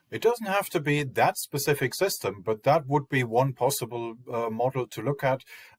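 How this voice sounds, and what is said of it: German accent. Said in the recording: “Keen-eared listeners to this will detect an accent, a German accent”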